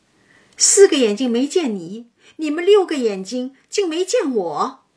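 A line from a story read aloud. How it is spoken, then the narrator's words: Laughing, from behind. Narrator (Chinese): 又听身后笑道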